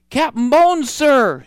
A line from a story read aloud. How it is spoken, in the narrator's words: he shouted